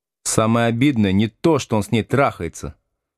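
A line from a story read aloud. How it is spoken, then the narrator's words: Plain. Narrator (Russian): сказала Ветка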